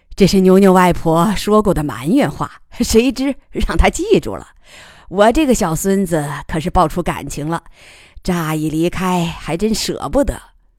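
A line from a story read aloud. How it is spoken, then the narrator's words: Smiling. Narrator (Chinese): 康不明笑着说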